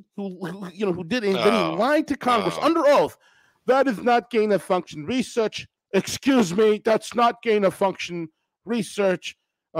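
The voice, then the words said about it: Imitates another person's voice. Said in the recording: “I gotta work on my Fauci accent.”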